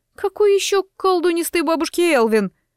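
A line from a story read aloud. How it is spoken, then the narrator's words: Loud sobbing. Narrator (Russian): шумно всхлипнула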